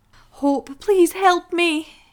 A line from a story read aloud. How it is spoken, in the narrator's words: cried out